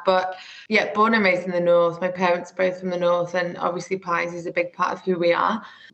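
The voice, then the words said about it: Northern English accent. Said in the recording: “I'm sure you can tell from my accent, I'm very northern, although I've been told that it's residing”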